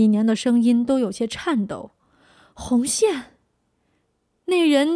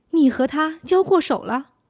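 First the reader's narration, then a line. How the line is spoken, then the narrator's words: Sighing. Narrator (Chinese): 那人叹息一声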